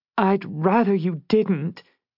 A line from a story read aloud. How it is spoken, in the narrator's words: Thomas said desperately